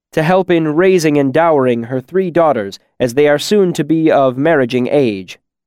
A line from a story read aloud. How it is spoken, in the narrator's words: Bast said loudly across the room